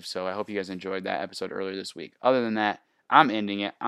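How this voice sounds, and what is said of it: Strained, fading voice. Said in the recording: “I'm even losing my voice.”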